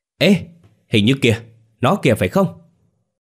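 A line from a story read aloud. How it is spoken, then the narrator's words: Sudden excited shout. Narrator (Vietnamese): Bất giác, chú Bửu phía sau lưng la lên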